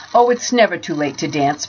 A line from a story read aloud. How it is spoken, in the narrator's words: Bartle laughed